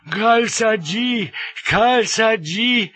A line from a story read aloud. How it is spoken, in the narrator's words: The crowd were in a frenzy, wailing and yelling